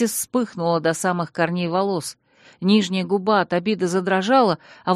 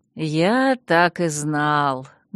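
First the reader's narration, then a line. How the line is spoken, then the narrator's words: Satisfied hiss. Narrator (Russian): довольно прошипел Виктор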